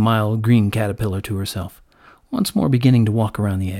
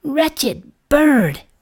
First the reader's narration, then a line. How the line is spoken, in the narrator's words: exclaimed the caterpillar